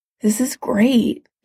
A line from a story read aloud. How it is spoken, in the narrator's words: he murmured when their lips parted